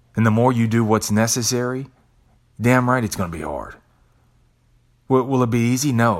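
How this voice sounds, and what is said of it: Usual voice. Nothing is said of it.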